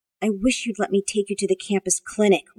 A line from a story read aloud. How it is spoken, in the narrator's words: Rachel muttered